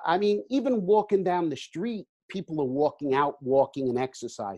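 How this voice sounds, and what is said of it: New Jersey accent. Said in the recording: “I guess nobody could tell by my accent. In New Jersey”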